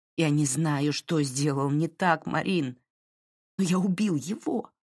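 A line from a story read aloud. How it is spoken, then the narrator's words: Half-choked voice. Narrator (Russian): произнес Дерек таким полузадушенным голосом, словно она действительно сжимала его горло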